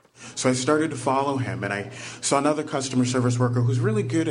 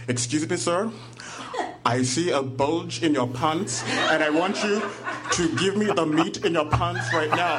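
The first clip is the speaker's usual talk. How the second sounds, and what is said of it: Thick African accent. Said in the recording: “with a very thick accent from Africa”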